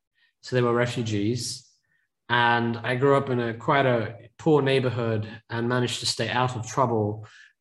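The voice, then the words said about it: Non-native English accent. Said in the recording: “my family originally came to the UK, as you can probably tell by my accent.”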